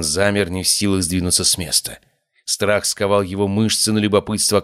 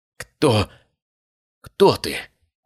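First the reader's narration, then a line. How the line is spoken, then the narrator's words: Trembling, strained. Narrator (Russian): выдавил он дрожащими губами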